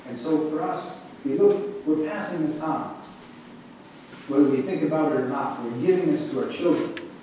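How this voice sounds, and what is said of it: Northern Midwestern American accent. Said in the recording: “I'm from Wisconsin, I also have a northern accent. Sometimes people comment about it.”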